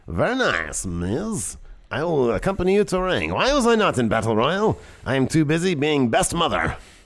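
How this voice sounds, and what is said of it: Borat-like put-on foreign accent. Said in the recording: “my Maurice accent ... It's just basically like Borat.”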